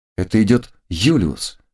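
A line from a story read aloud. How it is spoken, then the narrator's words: Calm exclamation. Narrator (Russian): воскликнула успокоившаяся Кристина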